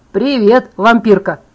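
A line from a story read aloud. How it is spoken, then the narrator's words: Loud greeting. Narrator (Russian): громко поприветствовал меня Эмбри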